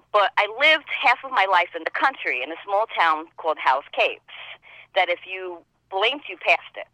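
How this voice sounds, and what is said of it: New York accent. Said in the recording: “I come from New York, as you can tell with this accent.”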